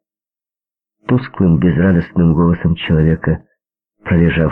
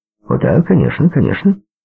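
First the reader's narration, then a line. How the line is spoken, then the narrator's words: Brisk, cheerful blurting. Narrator (Russian): бодрым тоном выпалил доктор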